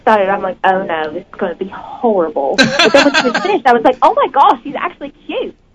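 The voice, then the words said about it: Speaks with a distinctive accent. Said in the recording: “Thank you for the accent ... in your amazing accent”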